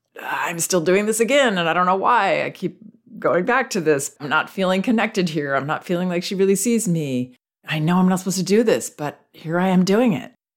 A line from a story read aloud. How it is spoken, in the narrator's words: It's more of an uncomfortable giggling